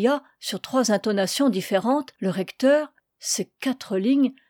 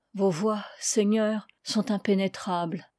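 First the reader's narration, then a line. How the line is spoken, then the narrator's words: Murmured. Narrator (French): murmura-t-il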